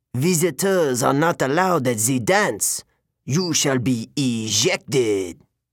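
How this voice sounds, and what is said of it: Man with French accent. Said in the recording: “He had an accent. French, maybe.”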